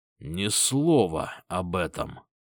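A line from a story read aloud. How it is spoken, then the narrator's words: Menacing whisper. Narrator (Russian): Угрожающе прошептал я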